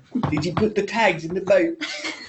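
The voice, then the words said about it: Attempted Australian accent, sounds English. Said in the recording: “Who's got a very good Australian accent? ... Nice. That's more English.”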